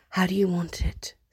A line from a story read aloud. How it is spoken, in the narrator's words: Steed whispers in his ear